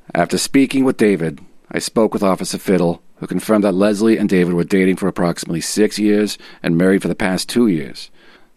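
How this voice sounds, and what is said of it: Exaggerated movie-cop Philly/Boston accent. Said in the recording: “I'm loving this accent, but what is it? Is this like a Philly accent or Boston or some kind of mix of the two? ... a collage of every cliche movie I've seen of that cop, and he's from all of those regions, just sort of in one”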